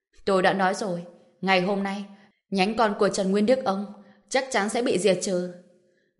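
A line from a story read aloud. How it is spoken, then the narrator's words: Stern laughing voice. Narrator (Vietnamese): Trần Bình lại nghiêm giọng cười nói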